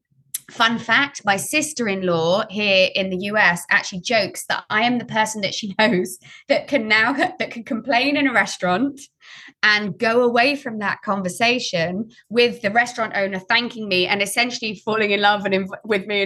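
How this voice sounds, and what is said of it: British accent. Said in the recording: “I do live in a part of America where they love the British accent”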